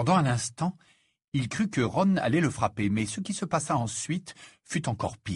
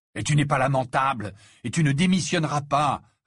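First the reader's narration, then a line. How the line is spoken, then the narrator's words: Fierce retort. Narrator (French): répliqua Harry d'un ton féroce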